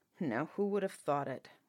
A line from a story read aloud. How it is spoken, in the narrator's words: mumbled the captain